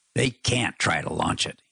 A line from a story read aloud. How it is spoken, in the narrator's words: snarled